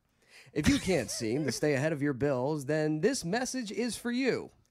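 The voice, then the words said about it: Formal radio announcer voice. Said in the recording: “when I got to read, all of a sudden I go in my WNBC voice”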